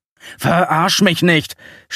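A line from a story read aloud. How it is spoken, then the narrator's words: Snapping angrily. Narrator (German): schnauze an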